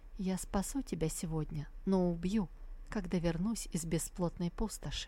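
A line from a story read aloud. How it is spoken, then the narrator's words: Quiet voice. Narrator (Russian): тихим голосом произнесла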